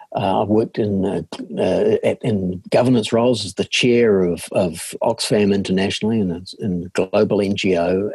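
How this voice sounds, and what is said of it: New Zealand accent. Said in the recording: “astute listeners will be able to tell from my accent that I'm a born and bred New Zealander.”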